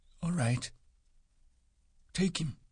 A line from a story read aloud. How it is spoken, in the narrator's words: Candy said softly and hopelessly